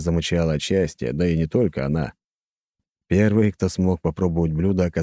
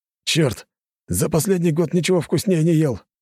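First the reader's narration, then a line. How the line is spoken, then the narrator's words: Exclaimed. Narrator (Russian): воскликнул один из наемников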